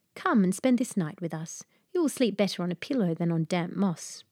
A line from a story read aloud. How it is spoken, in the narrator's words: The maiden answered kindly